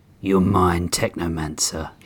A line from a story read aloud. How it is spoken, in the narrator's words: growled